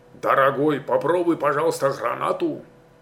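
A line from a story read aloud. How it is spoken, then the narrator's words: Bitter grunt, old man. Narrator (Russian): Старый солдат горько хмыкнул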